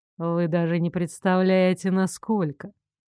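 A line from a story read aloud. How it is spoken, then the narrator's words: Ironic reply. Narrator (Russian): С иронией отозвался Стефан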